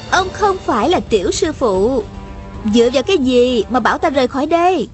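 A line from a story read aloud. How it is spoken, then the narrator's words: Smiling question. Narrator (Vietnamese): Hà Thiết Hữu mỉm cười hỏi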